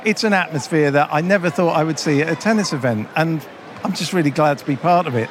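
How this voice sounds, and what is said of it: Hoarse, strained voice. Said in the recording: “I'm losing my voice because we've been chatting and having to speak really loudly to be heard over the crowd ... let's go get some throat sweets.”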